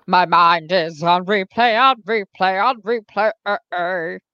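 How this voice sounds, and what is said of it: Imitates another person's singing voice. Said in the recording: “impersonation of Gaga? ... that's my impersonation of Katya doing the impersonation.”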